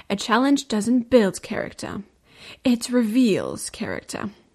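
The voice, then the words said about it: Mysterious, dramatic voice. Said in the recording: “You have to say it in a mysterious voice.”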